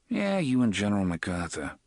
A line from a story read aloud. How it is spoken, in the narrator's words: Eddie muttered